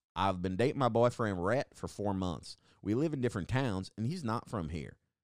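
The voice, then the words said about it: Put-on American Southern accent. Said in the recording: “I'm falling into an accent of where I think this is from. I'm thinking it's the South.”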